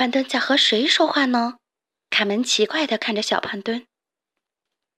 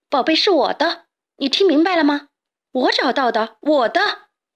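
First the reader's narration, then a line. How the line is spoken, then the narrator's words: Boy shouting while running. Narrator (Chinese): 小胖墩一边跑一边回头喊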